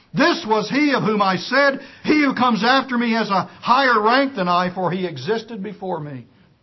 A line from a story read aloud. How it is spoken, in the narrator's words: cried out, saying